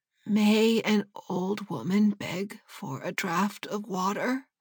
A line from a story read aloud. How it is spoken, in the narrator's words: said in a weak voice